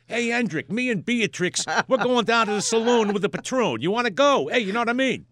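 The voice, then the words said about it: Put-on New York accent. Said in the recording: “the distinctive New York accent ... it's from the Dutch”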